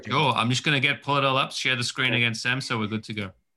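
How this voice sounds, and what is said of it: British accent. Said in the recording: “Have your wonderful British accent go through this list.”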